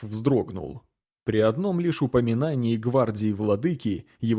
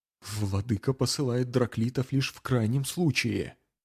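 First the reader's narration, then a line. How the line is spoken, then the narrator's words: Whisper. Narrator (Russian): прошептал он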